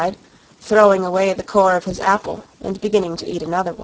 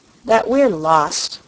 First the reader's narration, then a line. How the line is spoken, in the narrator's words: she said with a sigh